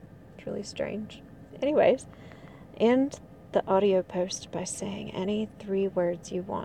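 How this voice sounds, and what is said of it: Usual voice. Nothing is said of it.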